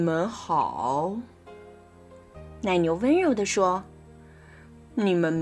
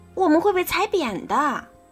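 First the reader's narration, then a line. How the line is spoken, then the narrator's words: Screaming. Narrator (Chinese): 斯库里尖叫着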